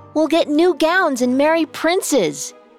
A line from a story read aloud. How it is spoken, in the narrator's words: cried Adela